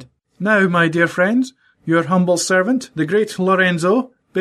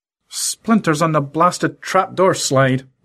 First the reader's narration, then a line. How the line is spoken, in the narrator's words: muttered Lorenzo